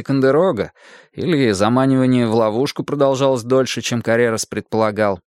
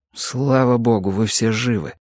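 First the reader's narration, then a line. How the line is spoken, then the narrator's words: Quiet. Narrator (Russian): тихо сказал Макилрой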